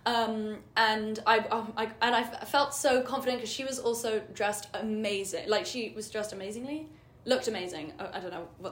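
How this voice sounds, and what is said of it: London English accent. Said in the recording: “she heard my accent ... I'm from London”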